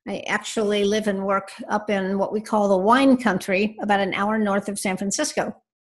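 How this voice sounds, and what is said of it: American accent. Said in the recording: “judging from your accent, you're somewhere across that pond”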